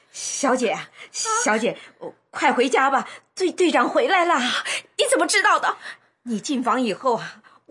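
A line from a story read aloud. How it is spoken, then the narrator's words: Breathless. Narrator (Chinese): 陈嫂喘着气说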